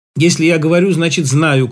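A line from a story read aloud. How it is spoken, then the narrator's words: Sudden shout. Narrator (Russian): крикнул он неожиданно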